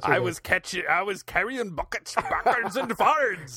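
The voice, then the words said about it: Put-on slightly Scottish accent. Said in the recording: “if you said that with an accent, it would be more impressive ... You sound a little Scottish ... It's really good.”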